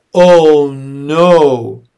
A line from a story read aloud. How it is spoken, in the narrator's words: Dicey groaned